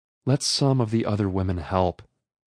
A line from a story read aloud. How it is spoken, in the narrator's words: pleaded with her